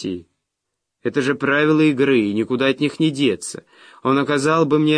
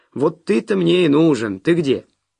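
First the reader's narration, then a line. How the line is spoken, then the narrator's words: Loud repetition. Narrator (Russian): Кен повторил громко, чтобы Петти слышала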